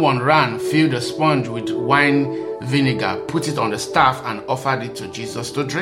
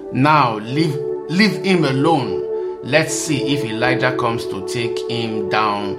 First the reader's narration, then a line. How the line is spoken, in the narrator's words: he said